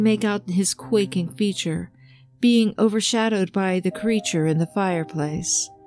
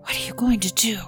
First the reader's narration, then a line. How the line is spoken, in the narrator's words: Eddie whispered